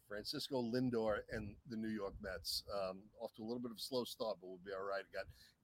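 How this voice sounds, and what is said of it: New York accent. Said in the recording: “as we say in New York ... he's losing his accent a little ... Not much.”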